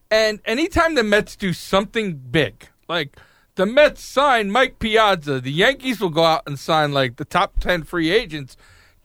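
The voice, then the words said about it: New York accent. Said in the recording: “So I'm from New York, if you couldn't tell by my accent”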